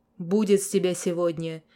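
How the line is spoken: Father's stern order. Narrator (Russian): весьма строго приказал батя

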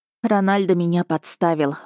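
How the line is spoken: Sighing. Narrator (Russian): вздохнула я

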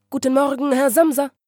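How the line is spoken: Friendly interjection. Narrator (German): rief der Prokurist freundlich dazwischen

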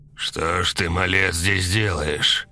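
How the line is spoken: Stern question. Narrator (Russian): строго спросил он

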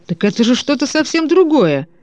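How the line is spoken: Excited exclamation. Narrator (Russian): воскликнул Де Сент, взволнованно

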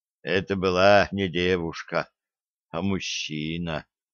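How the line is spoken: Barely audible reply. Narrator (Russian): ответил он так тихо, что она едва расслышала

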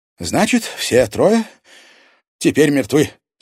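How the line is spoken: Relieved sigh. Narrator (Russian): с облегчением вздохнула Елена Федоровна

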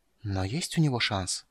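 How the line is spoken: Hoarse whisper. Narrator (Russian): хриплым шепотом повторила

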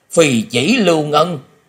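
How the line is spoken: Horrified exclamation. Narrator (Vietnamese): Lão ma không khỏi kinh hoàng bật thốt lên

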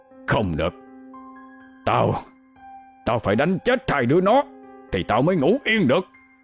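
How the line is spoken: Drunken, growling rage. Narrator (Vietnamese): Ông Cai gằn giọng, mắt ông đỏ ngầu, hơi men phả ra

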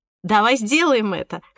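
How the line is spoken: Snorted. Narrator (Russian): хмыкнула

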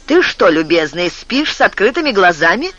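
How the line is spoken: Half joking, half irritated. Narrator (Russian): Голос Стефана звучал не то шутливо, не то раздраженно

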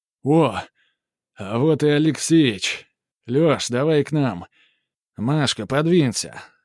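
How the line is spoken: Loud bark. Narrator (Russian): гаркнул Корнет

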